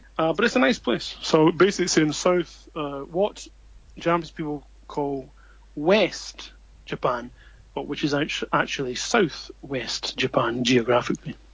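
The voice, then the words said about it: Scottish accent. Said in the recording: “as we can tell from your accent ... you are originally Scottish”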